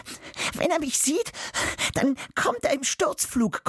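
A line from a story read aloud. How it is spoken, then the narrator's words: Panting. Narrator (German): keucht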